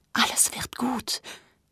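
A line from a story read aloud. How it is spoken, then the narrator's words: Whispered. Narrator (German): flüsterte er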